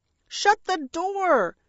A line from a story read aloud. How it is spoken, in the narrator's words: Bertie shrieked